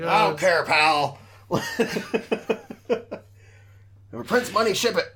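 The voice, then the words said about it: Imitates another person's voice. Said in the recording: “that's like my impression again ... I like this character that you're working on ... He's not really Vince McMahon”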